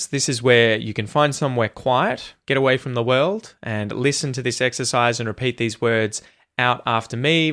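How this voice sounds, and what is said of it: Australian accent. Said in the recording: “working on your Aussie accent, you know, to try and copy me”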